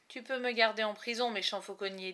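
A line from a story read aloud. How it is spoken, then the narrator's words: Resolute voice. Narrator (French): dit-il d'une voix résolue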